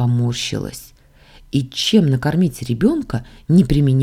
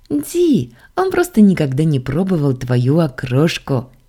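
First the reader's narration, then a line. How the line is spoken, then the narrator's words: Giggling. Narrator (Russian): хихикнула Сашка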